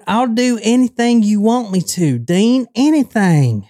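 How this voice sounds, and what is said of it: Put-on Houston Texas accent. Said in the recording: “in his Houston accent”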